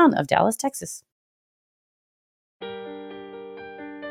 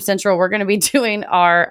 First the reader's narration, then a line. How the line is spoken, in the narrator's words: I laughed